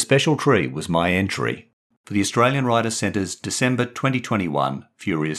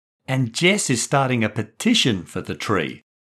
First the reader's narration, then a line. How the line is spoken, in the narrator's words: Maddie chipped in excitedly